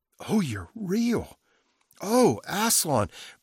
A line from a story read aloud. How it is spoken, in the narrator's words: cried Lucy